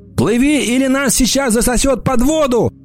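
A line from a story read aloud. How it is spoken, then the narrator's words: Shouting. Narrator (Russian): крикнул я Эмме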